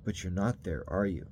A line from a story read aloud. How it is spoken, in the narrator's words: He said quietly